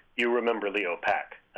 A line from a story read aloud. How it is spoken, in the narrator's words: said